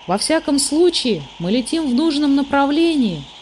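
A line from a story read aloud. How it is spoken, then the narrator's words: Cheerful. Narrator (Russian): весело сказал Мумитроль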